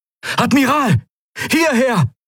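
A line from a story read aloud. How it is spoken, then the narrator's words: Unfamiliar voice calling. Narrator (German): rief eine fremde Stimme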